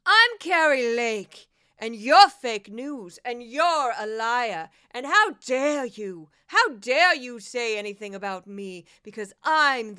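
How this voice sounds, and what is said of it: Imitates another person's voice. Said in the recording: “should do a very quick impression.”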